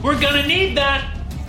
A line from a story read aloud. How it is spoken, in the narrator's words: Max yelled